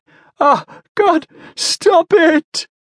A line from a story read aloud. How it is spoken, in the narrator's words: wailed, blood washing freely down the side of his head